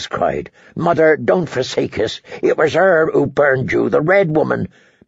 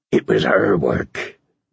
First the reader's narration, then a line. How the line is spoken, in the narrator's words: Davis said again, more weakly